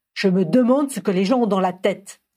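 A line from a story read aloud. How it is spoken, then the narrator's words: Grumbled. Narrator (French): grogna Tiern Watchover à Harry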